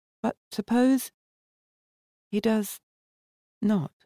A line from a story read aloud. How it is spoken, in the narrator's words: Valda asked in a very low voice